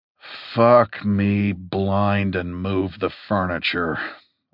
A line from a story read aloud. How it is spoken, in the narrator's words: I snarled